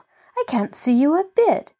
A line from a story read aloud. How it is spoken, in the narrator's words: she cried, unhesitatingly